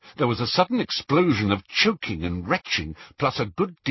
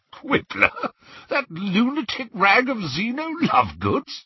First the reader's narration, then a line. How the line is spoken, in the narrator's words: At last he spluttered